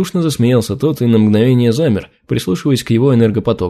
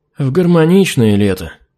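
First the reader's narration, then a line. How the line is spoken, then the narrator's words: Gloomy sigh. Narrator (Russian): Хмуро вздохнул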